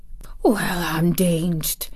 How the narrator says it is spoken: said softly, as if he was saying something quite different

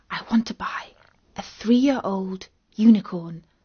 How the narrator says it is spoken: Katie whispered to it

